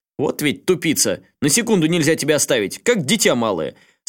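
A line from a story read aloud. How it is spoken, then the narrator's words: Relieved shout. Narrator (Russian): С облегчением заорал Рюди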